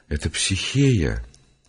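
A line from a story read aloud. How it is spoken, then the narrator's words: Quiet, ashamed. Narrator (Russian): Совестись и потупя голову, он произнес тихо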